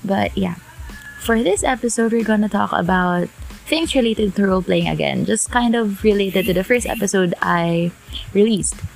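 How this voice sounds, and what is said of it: Sick, slightly off voice. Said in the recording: “I got sick that's why my voice is kind of weird”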